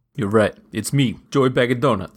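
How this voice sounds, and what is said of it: Performs an impression character voice. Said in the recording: “your one other impression”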